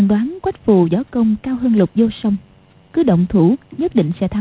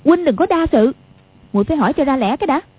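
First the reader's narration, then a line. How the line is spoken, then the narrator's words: Angry. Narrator (Vietnamese): Quách Phù đang tức giận, nói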